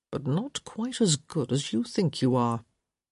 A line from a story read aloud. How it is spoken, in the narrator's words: he murmured